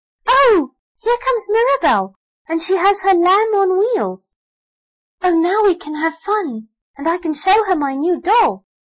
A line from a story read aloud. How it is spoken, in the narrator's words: Elsie gave a squeal of delight and cried